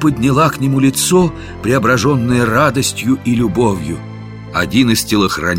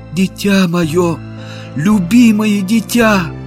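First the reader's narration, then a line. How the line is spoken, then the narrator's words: Sobbing. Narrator (Russian): она зарыдала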